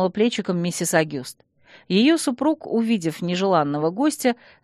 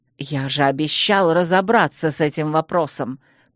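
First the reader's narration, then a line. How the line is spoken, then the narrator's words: Hiss. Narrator (Russian): прошипел мэр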